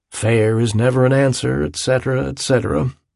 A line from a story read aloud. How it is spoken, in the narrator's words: he said quietly